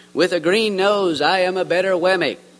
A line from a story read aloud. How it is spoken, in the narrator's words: exclaimed a third